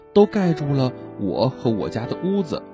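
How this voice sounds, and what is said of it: Quiet, softly spoken voice. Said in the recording (Chinese): “青蛙先生越说声音越轻 ... 青蛙小声地说”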